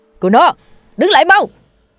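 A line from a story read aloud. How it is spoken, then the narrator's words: Loud shout while running. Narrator (Vietnamese): Cha tôi vừa đuổi theo vừa hét lớn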